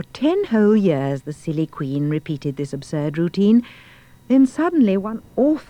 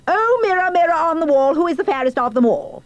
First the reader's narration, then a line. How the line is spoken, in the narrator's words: the spoiled and stupid queen would shout